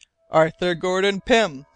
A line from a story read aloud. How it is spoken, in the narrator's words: exclaimed Glass